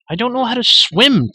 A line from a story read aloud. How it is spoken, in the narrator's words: Terran cried, his teeth chattering violently